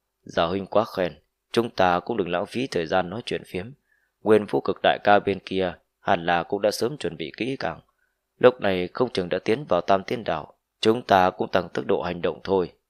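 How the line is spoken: Laughing loudly. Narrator (Vietnamese): Giả Tứ Phương cười lớn

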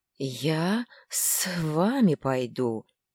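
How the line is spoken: Hissed reply. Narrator (Russian): прошипел в ответ дитя пустоши

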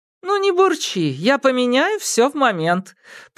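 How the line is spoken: Squeaky reply. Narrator (Russian): пропищал в ответ подморозовик Си

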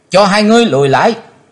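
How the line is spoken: Loud shout. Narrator (Vietnamese): hét to lên

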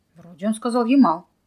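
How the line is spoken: Irritated. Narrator (Russian): раздраженно повторил Михаил

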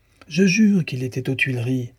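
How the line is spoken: Exclaimed. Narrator (French): s'écria Dussardier

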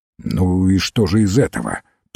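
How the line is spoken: Grumbling. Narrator (Russian): пробурчал Фламбо

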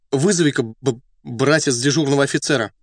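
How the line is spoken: Slight stammer. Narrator (Russian): немного заикаясь, сказал ряженый

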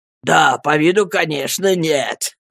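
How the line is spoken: Loud laughing speech. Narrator (Russian): громко расхохотался ее брат

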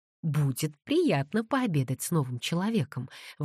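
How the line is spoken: Exclamation. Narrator (Russian): воскликнула Пандора

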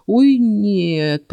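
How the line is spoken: Groaning. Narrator (Russian): простонал Келс

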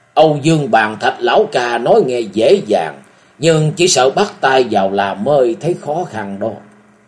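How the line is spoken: Sudden loud laughter. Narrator (Vietnamese): trưởng môn Bách Trường Thanh đột nhiên cười lớn

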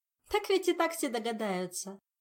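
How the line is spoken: Laughing. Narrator (Russian): засмеялась Ольга

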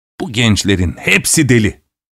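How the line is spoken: Plain. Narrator (Turkish): dedi

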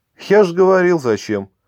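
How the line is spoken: Smiling, suppressing laughter. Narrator (Russian): подавляя желание захохотать, ответил улыбающийся Олег

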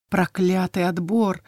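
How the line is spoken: Muttering between gasping breaths. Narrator (Russian): бормотала под стук копыт и собственное судорожное дыхание

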